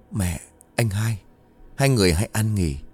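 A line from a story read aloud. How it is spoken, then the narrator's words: Muttering. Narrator (Vietnamese): Nó lẩm bẩm trong miệng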